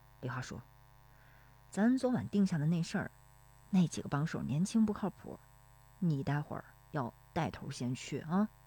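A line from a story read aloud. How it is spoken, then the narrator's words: Low voice. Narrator (Chinese): 石有福低声说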